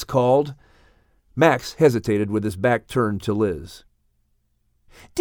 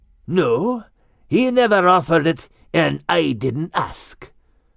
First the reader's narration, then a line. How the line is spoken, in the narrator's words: growled Max